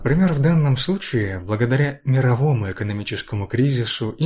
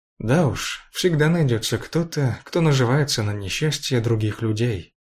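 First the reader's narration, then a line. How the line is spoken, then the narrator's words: Calm. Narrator (Russian): спокойно сказал Александр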